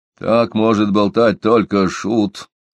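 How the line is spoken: Grumbled. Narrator (Russian): проворчал Лабар

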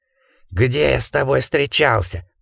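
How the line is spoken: Hoarse. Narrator (Russian): прохрипел гардинер

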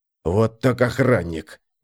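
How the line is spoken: Grumble. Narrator (Russian): буркнул он

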